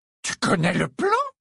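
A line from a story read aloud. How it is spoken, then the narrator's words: Indignant exclamation. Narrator (French): s'écria Bellatrix, sa satisfaction fugitive laissant place à une expression indignée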